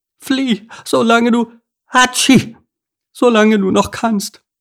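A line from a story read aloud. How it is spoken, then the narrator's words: Nasal call, heavy cold. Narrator (German): die schwer erkältete Blaumeise, die näselnd rief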